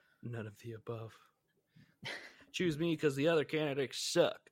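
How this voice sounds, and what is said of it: Usual voice. Nothing is said of it.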